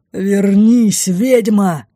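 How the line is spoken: Furious roar. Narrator (Russian): прорычал из царящего внутри хаоса бешеный рев

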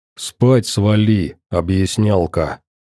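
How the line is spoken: Growling. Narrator (Russian): рыкнул сталкер

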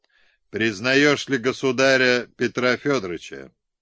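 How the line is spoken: Stern question. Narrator (Russian): Овчинников строго спросил

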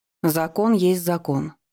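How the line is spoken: Cold pronouncement. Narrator (Russian): холодно изрекла Ева

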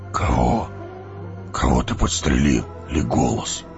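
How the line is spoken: Hoarse whisper. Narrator (Russian): хриплым шепотом спросил гном

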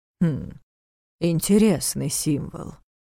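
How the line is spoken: Muttering. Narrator (Russian): пробормотал Нев

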